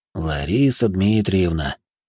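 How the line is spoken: Sighing man. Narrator (Russian): вздохнул мужчина

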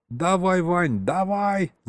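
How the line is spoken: Straining yell. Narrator (Russian): завопил он, налегая на массивную дверь

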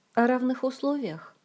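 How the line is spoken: Sad, smiling. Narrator (Russian): грустно улыбнулась Ольга

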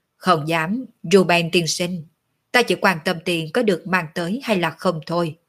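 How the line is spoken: Old man, cold and indifferent. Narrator (Vietnamese): Lão già họ La sắc mặt lạnh lùng, hờ hững nói

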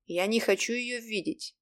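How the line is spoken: Plain. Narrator (Russian): сказал я

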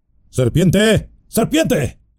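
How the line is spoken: Shouted. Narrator (Spanish): gritó Saruman

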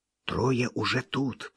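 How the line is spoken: Child whispering. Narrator (Russian): прошептал малыш

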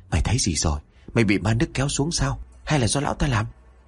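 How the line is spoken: Long heavy sigh. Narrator (Vietnamese): Đức Chí thở dài thườn thượt

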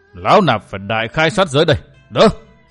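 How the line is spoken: Roaring old monk. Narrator (Vietnamese): Nhất Tâm đại sư gầm lên

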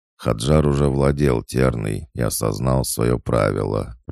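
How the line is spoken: Grumble. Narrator (Russian): пробурчал Бадур

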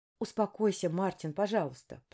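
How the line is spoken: Whispered. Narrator (Russian): прошептала я

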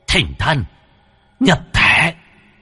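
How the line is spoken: Muttering then hissing. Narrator (Vietnamese): miệng lẩm bẩm rồi rít lên

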